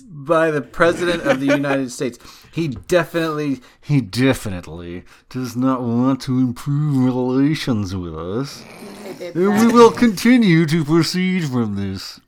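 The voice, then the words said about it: Badly done put-on accent. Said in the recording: “That's a horrible accent.”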